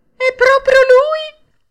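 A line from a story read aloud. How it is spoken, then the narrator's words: Shrill cry. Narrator (Italian): strilla la signora Rosaura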